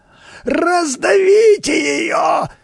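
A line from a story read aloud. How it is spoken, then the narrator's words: Frightened yelling. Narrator (Russian): вопил в испуге Хипротомус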